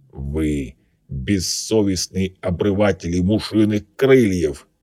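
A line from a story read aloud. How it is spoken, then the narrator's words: Contemptuous through gritted teeth. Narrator (Russian): процедил жук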